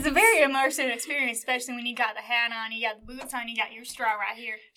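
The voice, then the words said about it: Put-on rural Southern hick accent. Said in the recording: “they're gonna think that you're like a straight up hick... my accent's pretty damn good”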